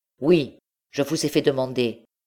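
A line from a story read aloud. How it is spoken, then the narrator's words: Exclaimed. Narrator (French): s'écria M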